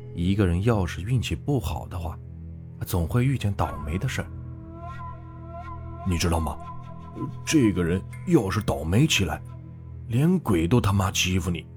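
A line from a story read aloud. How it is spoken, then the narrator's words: Sighing speech. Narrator (Chinese): 刘刚 叹了口气，说着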